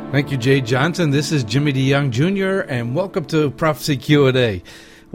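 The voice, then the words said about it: Allergy-affected congested voice. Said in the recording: “you might hear it in my voice... really put people's allergies at high, in overdrive”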